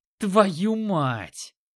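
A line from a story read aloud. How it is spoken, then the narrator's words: Yelling. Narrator (Russian): Заорал Рыжий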